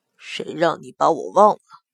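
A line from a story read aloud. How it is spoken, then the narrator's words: Coquettish soft seductive voice. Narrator (Chinese): 祸水娇嗔了一声，声音软腻诱人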